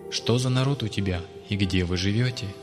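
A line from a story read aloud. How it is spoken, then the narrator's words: Plain question. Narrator (Russian): спросила Власта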